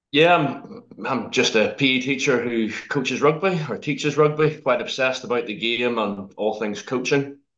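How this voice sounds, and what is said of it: Harsh Northern Irish accent. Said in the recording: “Sorry about my accent. It's a pretty harsh, rash accent, I think. ... from here on it before. ... Do I not have anyone from Northern Ireland?”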